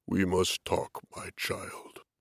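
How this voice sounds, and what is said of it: Deep voice. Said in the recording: “came the same deep voice.”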